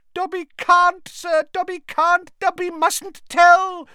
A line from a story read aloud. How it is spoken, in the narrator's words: squealed the elf